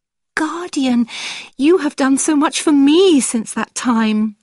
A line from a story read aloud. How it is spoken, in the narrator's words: I cried